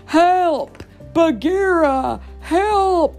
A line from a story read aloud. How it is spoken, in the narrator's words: the stunned bear shouted